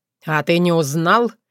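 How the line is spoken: Cold inquiry. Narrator (Russian): холодно осведомился неизвестный у Варка

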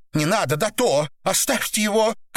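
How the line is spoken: Shouting. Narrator (Russian): кричала Наташа

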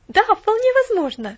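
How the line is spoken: Exclamation. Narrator (Russian): воскликнула Пуллиана

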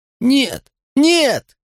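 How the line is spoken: Moaning. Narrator (Russian): Я застонал

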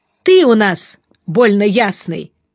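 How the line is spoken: Shout from hall corner. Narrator (Russian): кричал все тот же голос из угла зала

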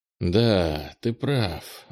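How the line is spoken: Sighing. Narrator (Russian): вздохнул Кенни

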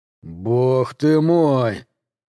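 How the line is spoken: Drawn out. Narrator (Russian): протянул Джет

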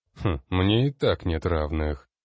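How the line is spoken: Scornful snort. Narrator (Russian): фыркнул магистр

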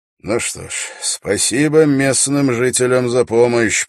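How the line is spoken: Muttered. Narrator (Russian): пробормотал Холт

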